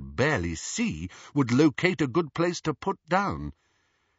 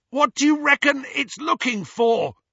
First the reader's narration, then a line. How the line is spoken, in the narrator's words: Ron yelled